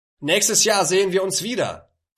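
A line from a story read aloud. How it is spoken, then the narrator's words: Call. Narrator (German): rief Abu Sufyan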